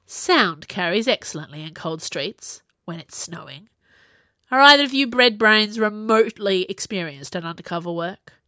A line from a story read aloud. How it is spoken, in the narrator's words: Kai sighed